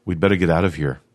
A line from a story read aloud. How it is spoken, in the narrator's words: he said